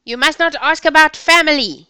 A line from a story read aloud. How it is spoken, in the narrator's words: yelled a policeman